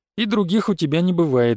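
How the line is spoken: Sighed. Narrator (Russian): вздохнул

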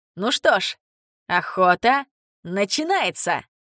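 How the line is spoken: Laughing. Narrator (Russian): Смеясь

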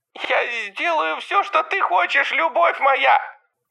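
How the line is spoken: Repulsive nasal voice. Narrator (Russian): сказал Родерик отвратительным гнусавым голосом

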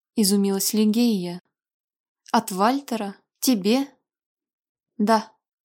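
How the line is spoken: Cold reply. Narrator (Russian): холодно ответила Алича

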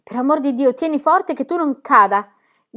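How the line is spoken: Encouraging shout. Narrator (Italian): gli gridò Pippi a mo' di incoraggiamento

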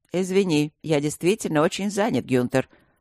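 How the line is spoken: Calm reply. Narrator (Russian): спокойно ответил Луциус

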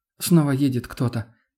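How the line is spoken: Frightened. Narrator (Russian): испуганно произнесла Тоня

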